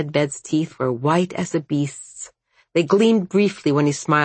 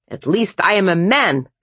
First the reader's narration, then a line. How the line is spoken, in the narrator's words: Konstantin snapped shrill